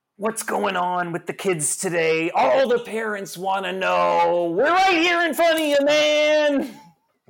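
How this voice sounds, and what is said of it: Good imitation of a radio DJ. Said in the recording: “your best impression of Happy Harry Hard-On Christian Slater on the radio ... That's fucking good. I gotta say, that was really good ... actually doing it well”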